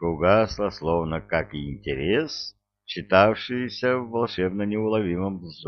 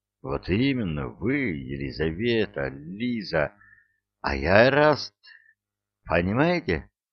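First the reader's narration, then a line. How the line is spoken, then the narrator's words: Heated, heavily stuttering exclamation. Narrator (Russian): воскликнул он с горячностью, которую в себе и не подозревал, да еще и заикаясь сверх всякой меры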